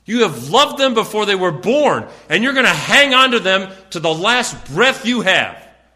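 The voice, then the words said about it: Yelling, loud excited preaching. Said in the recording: “sorry I'm yelling so much”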